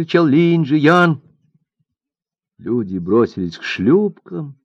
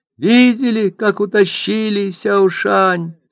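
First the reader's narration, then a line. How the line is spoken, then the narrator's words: Tearful questions. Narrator (Russian): спрашивали они сквозь слезы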